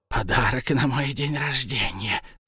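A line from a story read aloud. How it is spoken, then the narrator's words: Wistful whisper. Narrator (Russian): прошептал он, как любил шептать себе в беспросветные, темные, нескончаемые дни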